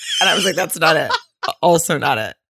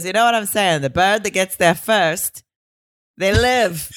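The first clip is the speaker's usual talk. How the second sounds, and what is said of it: Put-on Greek accent. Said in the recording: “you're welcome for my Greek accent ... You nailed it”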